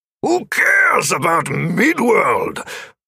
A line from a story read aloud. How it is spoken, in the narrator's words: Oberon had bellowed, losing what small semblance of control he had had over his emotions